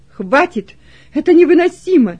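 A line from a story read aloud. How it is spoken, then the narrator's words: Loud, trembling voice. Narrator (Russian): произнес громко Кунерих, дрожащим голосом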